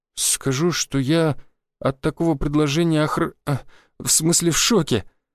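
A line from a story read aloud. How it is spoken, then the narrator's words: Forced out, stunned. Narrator (Russian): выдавила из себя Тамара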